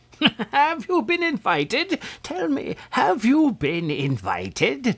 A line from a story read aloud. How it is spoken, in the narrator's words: demanded the old man, chuckling to himself as if much amused